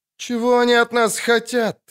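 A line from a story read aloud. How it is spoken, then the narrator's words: Sighing, woman. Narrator (Russian): вздохнула Вера Левенхаупт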